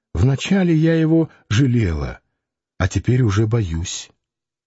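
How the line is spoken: Said with a sigh. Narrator (Russian): она сказала, вздохнув

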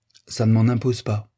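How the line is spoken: Plain. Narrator (French): dit-elle

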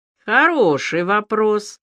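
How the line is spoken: Snort. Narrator (Russian): хмыкнул Илья

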